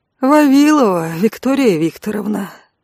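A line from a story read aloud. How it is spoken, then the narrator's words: Bored voice. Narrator (Russian): скучающим голосом произнес ангел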